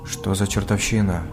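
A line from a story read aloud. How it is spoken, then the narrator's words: Whisper. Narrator (Russian): прошептал Макс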